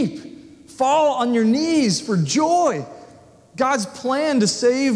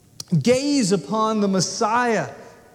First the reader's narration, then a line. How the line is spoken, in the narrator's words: he says